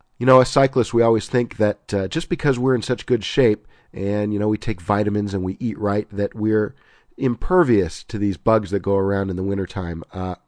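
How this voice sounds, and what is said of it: Sick, under-the-weather voice. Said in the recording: “As you can tell from my voice... I'm a bit under the weather... My voice should be evidence”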